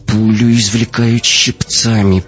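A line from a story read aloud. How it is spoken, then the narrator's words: Speaking through clenched teeth. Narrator (Russian): проговорила Катя сквозь зубы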